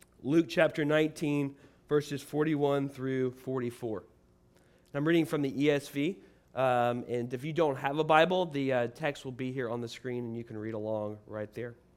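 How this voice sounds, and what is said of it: Rough, hoarse voice. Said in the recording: “My voice is kind of rough this morning”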